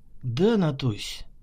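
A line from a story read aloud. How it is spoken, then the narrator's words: Gentle affectionate reply. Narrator (Russian): мягко ответил любящий свою непутевую сестру майор госбезопасности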